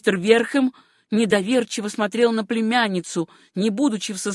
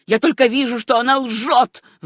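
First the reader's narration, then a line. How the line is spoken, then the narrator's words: Furious shout. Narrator (Russian): в бешенстве крикнул Джордж Верхэм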